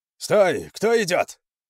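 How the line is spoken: Sentry's shout. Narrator (Russian): крикнул Конану один из часовых на мосту

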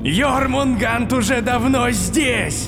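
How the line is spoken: Shouting. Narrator (Russian): прокричал Локи

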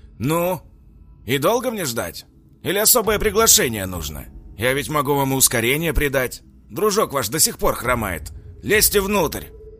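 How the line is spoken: Loud echoing shout. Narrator (Russian): буквально прокричал мужчина, вызвав эхо в полупустом подвале

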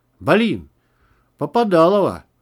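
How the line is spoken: Muffled shout. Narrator (Russian): приглушенно выкрикнул Макс

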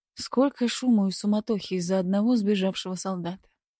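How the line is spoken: Muttering under breath. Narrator (Russian): пробормотала себе под нос

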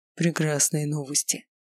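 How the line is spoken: Breathed out. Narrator (Russian): выдохнул он

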